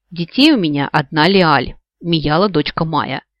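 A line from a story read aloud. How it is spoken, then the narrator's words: Grumbling rebuttal. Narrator (Russian): решив опровергнуть хоть что-то, пробурчала я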